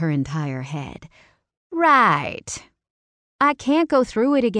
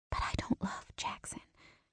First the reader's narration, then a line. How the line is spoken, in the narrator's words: I whispered